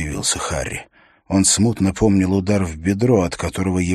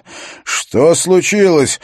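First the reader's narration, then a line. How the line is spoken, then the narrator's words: Shouting, half-deafened. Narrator (Russian): выкрикнул Харри, по-прежнему едва слыша себя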